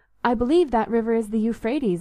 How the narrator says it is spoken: I said

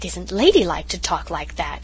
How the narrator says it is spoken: said Cousin Sophia in a shocked tone

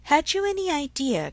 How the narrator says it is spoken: cried Harriet

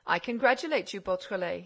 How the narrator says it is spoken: he said

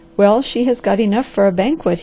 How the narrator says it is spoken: he said

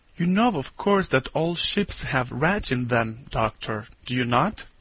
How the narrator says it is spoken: after he had coughed nervously 2 or 3 times, he said

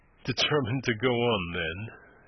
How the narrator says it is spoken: he said dryly

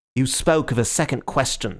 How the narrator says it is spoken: snapped Gregory

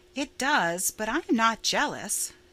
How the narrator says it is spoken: said Stella calmly

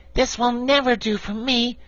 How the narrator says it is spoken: exclaimed the patchwork girl

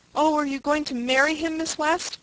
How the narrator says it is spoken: asked eagerly

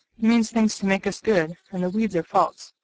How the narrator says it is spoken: cried Demi, who usually took the lead in these talks, because he was used to this sort of thing and liked it very much

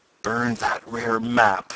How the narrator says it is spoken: gasped Tom

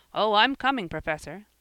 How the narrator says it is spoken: laughed Jasper

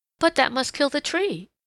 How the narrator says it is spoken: exclaimed Peter Rabbit

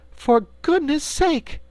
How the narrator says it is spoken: cried Dorothy, amazed

